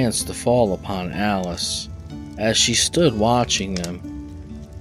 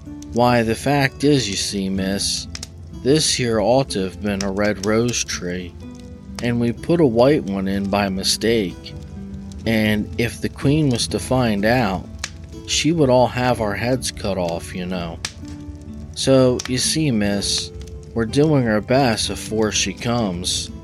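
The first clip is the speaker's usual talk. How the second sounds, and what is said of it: Low, quiet voice. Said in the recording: “in a low voice”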